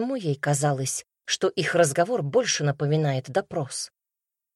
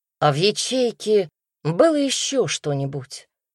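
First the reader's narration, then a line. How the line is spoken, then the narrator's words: Plain. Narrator (Russian): спросил Мендес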